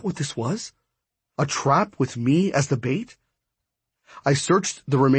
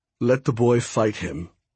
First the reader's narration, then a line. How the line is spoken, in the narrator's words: he said coldly